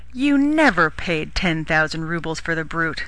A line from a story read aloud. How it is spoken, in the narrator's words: exclaimed the brother-in-law